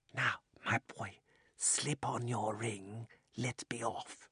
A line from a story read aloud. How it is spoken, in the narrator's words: the old man put his mouth so close to Diggory's ear that it tickled and whispered